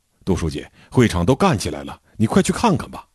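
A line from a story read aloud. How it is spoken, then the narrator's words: Hurried, urgent. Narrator (Chinese): 社员小宋急急忙忙地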